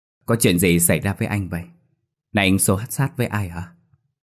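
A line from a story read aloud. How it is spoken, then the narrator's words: Sweet soothing question. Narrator (Vietnamese): bằng giọng ngọt ngào, Linh hỏi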